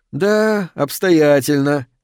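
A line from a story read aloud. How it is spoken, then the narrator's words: Cheerful. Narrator (Russian): весело сказал он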